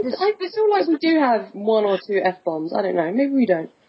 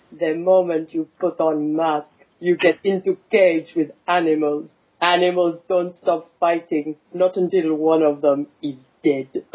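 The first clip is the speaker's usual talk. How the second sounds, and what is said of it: Put-on Russian accent. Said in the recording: “I love your Russian accent. ... I have another quote in a Russian accent”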